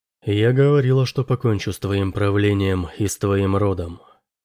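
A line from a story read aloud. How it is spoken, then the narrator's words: Quiet. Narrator (Russian): тихо сказала Роза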